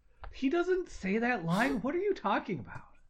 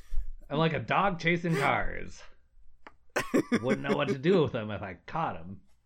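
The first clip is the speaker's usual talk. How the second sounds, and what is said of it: Joker character impression. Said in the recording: “my impression of the Joker”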